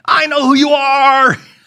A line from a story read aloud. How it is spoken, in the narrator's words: somebody yells out something like this at the top of their lungs